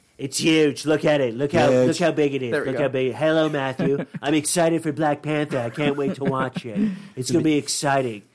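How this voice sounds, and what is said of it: Imitates another person's voice. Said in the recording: “my shitty Donald Trump impression”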